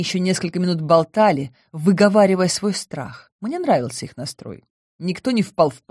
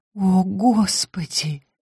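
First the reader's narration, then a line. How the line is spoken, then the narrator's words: Breathless, voice breaking. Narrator (Russian): выдохнула Мария, и голос у нее сорвался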